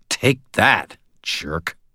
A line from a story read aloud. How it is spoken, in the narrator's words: A low, growling sound came warbling out of the black hood